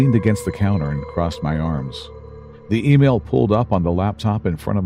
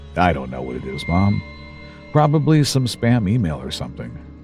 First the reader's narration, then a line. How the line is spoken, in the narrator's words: muttered